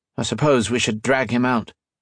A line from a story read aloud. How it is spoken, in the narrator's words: Modo said